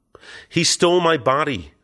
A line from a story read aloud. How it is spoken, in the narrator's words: I cried, attempting to squirm free